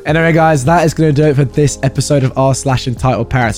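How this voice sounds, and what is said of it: Hoarse voice. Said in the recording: “Apologies once again for my voice ... my lovely hoarse voice”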